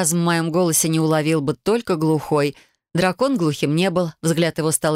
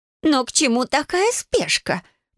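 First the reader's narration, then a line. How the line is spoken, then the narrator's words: Squeaky voice. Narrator (Russian): пропищала тетушка Мальва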